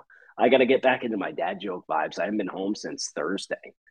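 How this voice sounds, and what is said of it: Slightly hoarse voice. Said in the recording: “you can hear I'm a little hoarse. Not a pony, but a little hoarse.”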